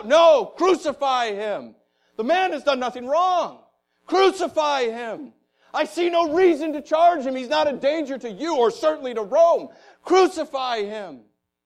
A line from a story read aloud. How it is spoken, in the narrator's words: cried out